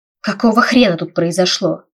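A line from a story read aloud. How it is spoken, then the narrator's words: Dragon's roaring bark. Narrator (Russian): рявкнул грозовой дракон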